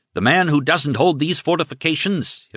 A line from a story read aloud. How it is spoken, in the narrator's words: Hitler shouted